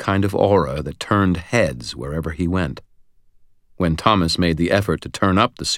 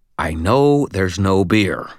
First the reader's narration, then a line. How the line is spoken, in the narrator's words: I growled